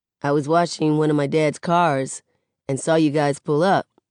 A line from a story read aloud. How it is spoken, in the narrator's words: he says